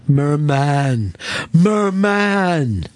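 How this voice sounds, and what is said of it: Imitates a movie character's voice. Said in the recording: “That was my Zoolander impression”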